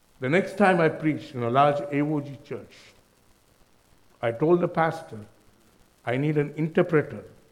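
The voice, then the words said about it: Indian accent. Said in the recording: “my accent is Indian. ... you won't understand his accent”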